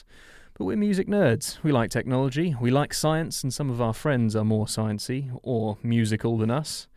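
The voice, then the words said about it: English accent. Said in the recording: “We're recording from two separate locations in England, if you haven't joined us before, and you probably can tell by our accents.”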